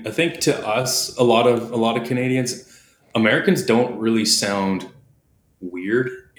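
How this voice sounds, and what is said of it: Canadian accent. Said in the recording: “I like my Canadian accent”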